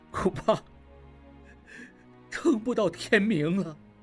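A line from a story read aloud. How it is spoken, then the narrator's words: Crying. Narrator (Chinese): 小马掌柜哭了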